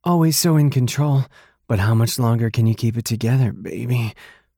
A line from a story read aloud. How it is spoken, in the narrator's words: She moaned that last word